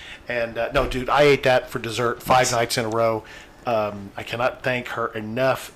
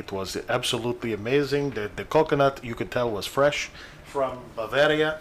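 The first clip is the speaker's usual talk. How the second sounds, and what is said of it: Put-on Russian accent. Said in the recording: “I will do my Russian accent”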